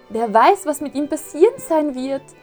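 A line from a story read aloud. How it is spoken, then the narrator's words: Shouted. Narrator (German): schrie Pinocchio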